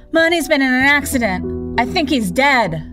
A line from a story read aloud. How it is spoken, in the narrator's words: screaming